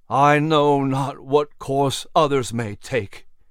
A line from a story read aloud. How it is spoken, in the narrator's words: he groaned through clenched teeth